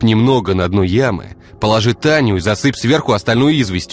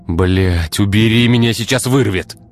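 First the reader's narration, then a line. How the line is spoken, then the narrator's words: Irritated bark. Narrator (Russian): раздраженно рявкнул Игорь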